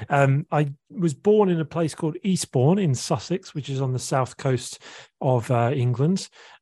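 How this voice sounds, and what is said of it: English accent. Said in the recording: “you're from England, right? So hear the accent.”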